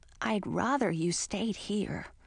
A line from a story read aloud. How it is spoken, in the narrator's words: whispered in my ear